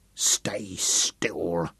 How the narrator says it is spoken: Sam snarled

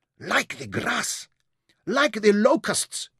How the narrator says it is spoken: squeaked

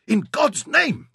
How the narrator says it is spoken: shrieked Jacob

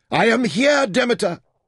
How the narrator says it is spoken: Taita yelled despairingly

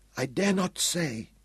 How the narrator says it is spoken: the woman whispered

